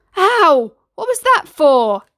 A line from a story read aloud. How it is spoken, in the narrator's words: Aladdin yelled, shocked by this sudden change